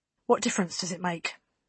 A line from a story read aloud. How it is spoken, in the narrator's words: She asked quietly